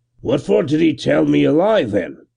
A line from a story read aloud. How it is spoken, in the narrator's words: grumbled, chapfallen